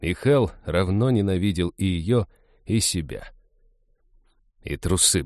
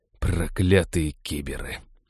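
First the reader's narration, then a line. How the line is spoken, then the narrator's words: Muttering. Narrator (Russian): пробормотал Хэл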